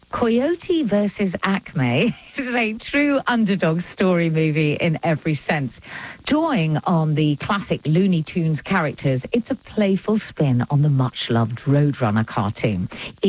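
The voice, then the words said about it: English accent. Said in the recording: “doing it in my English accent”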